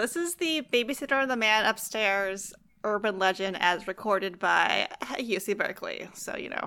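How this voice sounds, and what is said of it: Usual voice. Nothing is said of it.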